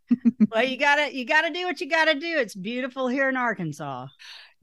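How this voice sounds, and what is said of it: Strong Southern US accent. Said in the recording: “I'm Southern and you're Southern, and your accent is stronger than mine”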